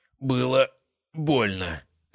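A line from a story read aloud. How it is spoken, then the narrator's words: Dry rasping croak. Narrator (Russian): пересохшим горлом прохрипел Тур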